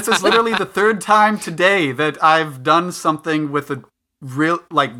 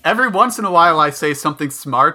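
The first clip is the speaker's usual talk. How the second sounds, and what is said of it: Flat deadpan delivery. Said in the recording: “you're so deadpan ... I have a dry sense of humor”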